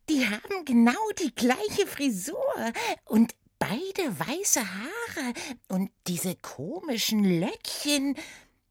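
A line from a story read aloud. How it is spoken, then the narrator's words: Giggling. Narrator (German): kicherte sie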